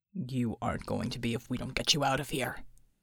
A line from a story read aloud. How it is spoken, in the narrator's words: Bulwark said grimly